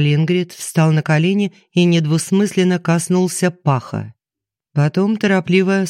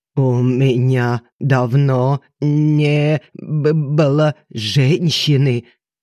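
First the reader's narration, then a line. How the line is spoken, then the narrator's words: Stammering mutter. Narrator (Russian): Заикаясь, бормотал он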